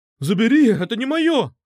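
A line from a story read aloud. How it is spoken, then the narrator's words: Exclamation. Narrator (Russian): воскликнул он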